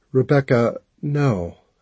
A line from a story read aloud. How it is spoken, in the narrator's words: I said, as gently as I could manage